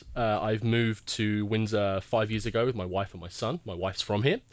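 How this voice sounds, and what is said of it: English accent. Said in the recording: “that accent is completely fake... It's not really fake, is it?... I was born and raised in England”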